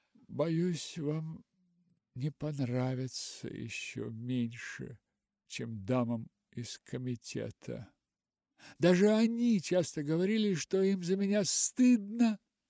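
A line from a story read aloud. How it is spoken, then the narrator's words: Sigh. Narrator (Russian): Вздохнула она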